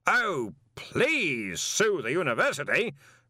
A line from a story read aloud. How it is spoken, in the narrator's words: Ridcully bellowed